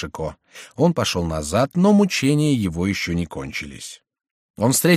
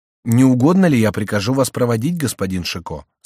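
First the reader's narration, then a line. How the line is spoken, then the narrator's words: Plain. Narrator (Russian): спросил офицер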